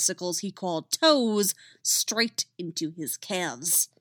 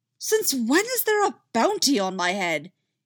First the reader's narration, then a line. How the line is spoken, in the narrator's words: he shouted